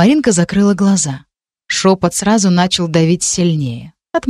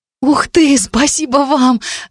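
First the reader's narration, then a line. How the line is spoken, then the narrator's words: Joyful exclamation. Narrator (Russian): радостно возликовала Маринка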